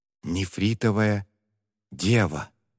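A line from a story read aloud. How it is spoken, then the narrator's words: Spellbound whisper. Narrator (Russian): завороженно прошептала Сунло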